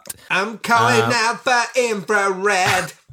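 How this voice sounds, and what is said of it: Imitates another person's voice. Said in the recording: “best Brian Moco impersonation.”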